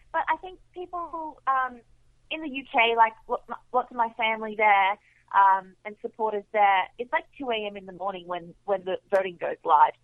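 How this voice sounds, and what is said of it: Australian accent. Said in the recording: “I'm from Australia... my accent annoys people”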